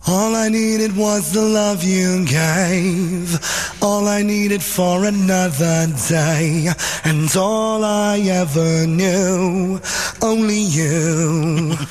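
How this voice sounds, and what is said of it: Imitates another person's singing voice. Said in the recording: “his Alison Moyer impression”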